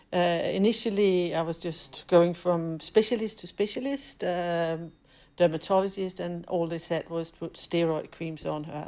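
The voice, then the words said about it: Danish accent. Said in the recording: “as you can hear in my accent, I'm definitely not British, but I'm Danish”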